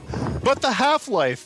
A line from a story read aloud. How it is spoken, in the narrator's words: screamed Gordon